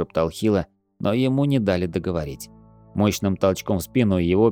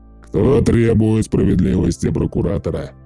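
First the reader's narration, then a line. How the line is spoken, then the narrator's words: Thunderous question. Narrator (Russian): громовым голосом спросил он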